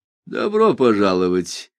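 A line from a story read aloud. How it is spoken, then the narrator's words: Snide. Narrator (Russian): ехидно сказал Джуффин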